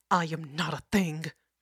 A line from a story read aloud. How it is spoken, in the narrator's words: she growled